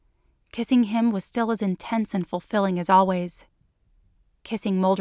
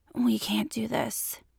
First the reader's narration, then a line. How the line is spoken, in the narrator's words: said in a hoarse voice